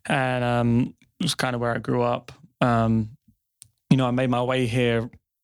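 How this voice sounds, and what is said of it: London English accent. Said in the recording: “you have an accent there and it's not from Detroit or Texas ... I'm from basically the outskirts of London, right on the edge of North London”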